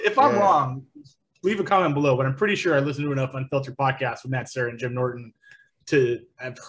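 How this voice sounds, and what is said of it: Usual voice. Nothing is said of it.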